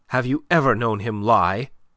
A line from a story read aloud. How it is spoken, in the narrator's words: she cut in sharply